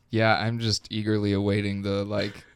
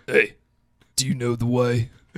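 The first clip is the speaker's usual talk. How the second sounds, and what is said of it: Bad impression of meme character voice. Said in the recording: “my bad Idris Elba impression ... doing the Uganda Knuckles meme ... his entire Uganda Knuckles impression ... my Idris Elba Uganda Knuckles impression”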